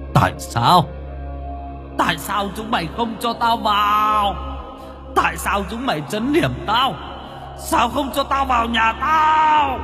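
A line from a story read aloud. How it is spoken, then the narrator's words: Bitter anguished screaming. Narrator (Vietnamese): Bác Tư uất hận gào thét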